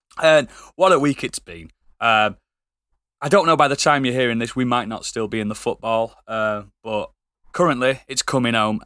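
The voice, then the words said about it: Rough, worn-out sounding voice. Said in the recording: “that's why my voice sounds disgusting.”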